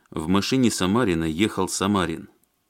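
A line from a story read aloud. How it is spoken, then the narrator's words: Angry. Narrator (Russian): сердито сказал Алексей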